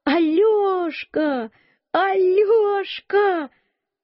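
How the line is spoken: Shout. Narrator (Russian): Она закричала

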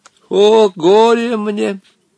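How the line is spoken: Groaning. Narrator (Russian): простонал в ответ Хаттабыч

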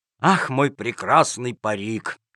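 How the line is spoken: Sad sigh. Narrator (Russian): вздохнул с грустью Джакомон

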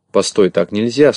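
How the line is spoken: Plain. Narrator (Russian): сказал Винтик

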